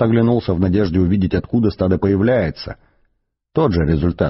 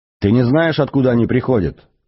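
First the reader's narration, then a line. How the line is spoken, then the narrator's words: Shouted. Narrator (Russian): крикнул Артур Трашбаргу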